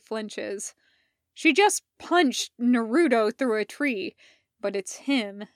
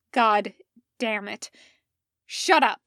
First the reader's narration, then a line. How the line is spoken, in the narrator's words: snaps